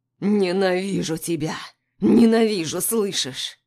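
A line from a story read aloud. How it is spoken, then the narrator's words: Hoarse growl. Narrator (Russian): Хрипло рычу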